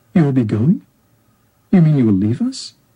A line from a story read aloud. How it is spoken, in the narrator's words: Siddhartha smiled kindly